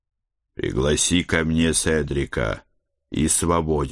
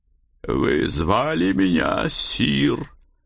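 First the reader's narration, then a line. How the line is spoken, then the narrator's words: Slightly hoarse old bass. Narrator (Russian): раздался чуть хрипловатый бас старого вояки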